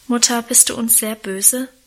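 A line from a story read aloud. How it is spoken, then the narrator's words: Anxious question. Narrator (German): fragte Karl ängstlich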